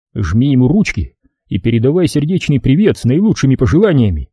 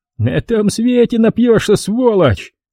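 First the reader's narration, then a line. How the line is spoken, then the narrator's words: Nasty cackling. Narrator (Russian): Мерзко хохотал он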